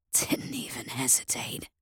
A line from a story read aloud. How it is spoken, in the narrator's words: he wheezed